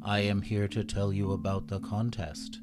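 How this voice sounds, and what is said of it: Robotic monotone voice. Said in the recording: “talking like a robot”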